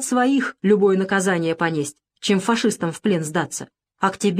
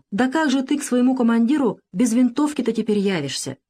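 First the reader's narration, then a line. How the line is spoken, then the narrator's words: Sigh. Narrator (Russian): вздохнула она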